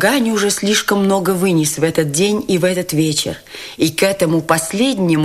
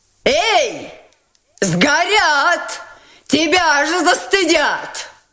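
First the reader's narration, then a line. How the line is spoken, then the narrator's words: Shouting. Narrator (Russian): кричала ему Настасья Филипповна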